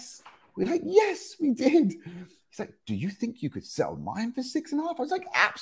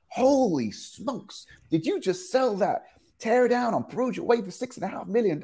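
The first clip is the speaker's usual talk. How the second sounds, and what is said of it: Put-on American accent. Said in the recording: “That's my American accent, by the way. I apologize.”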